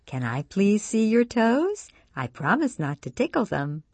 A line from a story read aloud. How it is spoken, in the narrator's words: Her eyes sparkling, Sue asks in a gentle voice